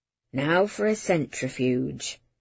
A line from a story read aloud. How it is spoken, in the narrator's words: said quietly, almost as if to himself